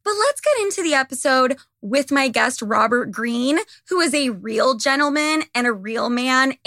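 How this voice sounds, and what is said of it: Hoarse, strained voice. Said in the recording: “I'm like losing my voice.”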